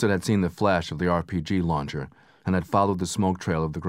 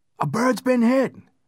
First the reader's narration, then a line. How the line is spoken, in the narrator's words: Specialist Sean Nelson screamed